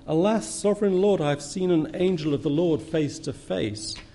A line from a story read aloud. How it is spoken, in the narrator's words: he exclaimed